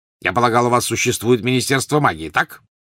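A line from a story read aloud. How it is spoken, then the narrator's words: Sudden sharp question. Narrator (Russian): вдруг резко спросил Вернон Дурсли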